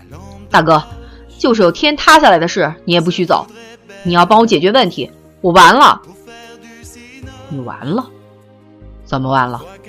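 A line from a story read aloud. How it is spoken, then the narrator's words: Loud exasperated roar. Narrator (Chinese): 他大声的、气急败坏的吼了起来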